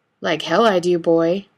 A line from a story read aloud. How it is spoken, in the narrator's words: Bobby grunts